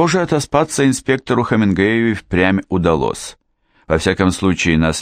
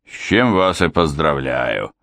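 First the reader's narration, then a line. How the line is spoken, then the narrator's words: Snorting. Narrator (Russian): хмыкнул суперинтендант Ханнасайт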